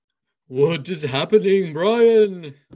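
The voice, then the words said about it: Spooky Dracula-like put-on accent. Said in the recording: “Dracula? ... an accent, scary accent of indeterminate origin. ... It wasn't very good.”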